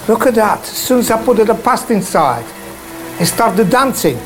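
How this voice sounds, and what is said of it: Speaks with a noticeable accent. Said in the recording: “just listen to how he talks ... play his accent ... It's poetry.”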